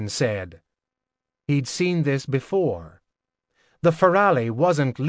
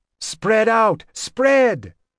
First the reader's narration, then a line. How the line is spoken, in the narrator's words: Logan shouted